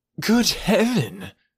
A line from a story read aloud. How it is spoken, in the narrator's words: cried Mr